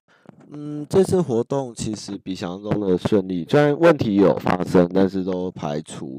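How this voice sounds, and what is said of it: Quiet voice, sounds like a cold. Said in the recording (Chinese): “可能太小声，因为我其实有点感冒了，我喉咙现在有点痛”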